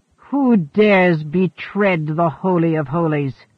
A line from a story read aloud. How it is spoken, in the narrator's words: he bellowed